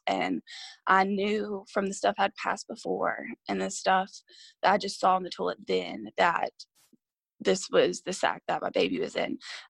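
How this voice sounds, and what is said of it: Emotional, tearful voice. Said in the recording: “I get emotional. I try not to, but sometimes it happens.”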